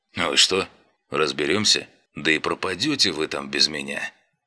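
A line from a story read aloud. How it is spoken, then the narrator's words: Snorting. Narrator (Russian): хмыкнул мой школьный друг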